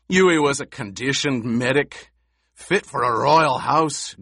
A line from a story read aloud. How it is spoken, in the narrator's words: Gurney snarled